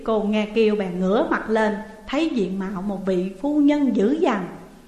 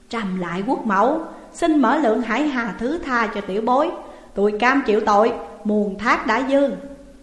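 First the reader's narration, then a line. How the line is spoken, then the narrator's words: Suppressed anger, deferential. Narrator (Vietnamese): tức giận ứa gan mà chẳng dám trổ hình, thưa rằng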